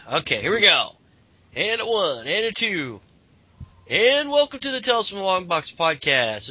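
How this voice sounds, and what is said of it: Congested, stuffy voice. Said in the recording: “I have a cold. ... if you hear me go out for mute out for a second, that's probably because I'm sneezing”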